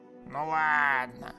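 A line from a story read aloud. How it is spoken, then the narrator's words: Drawling, cop. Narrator (Russian): протянул коп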